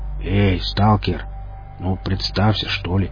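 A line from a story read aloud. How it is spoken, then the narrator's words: Quiet request. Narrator (Russian): негромко попросил наемник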